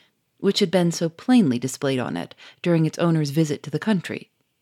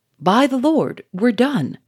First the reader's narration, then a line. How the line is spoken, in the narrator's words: cried Charolais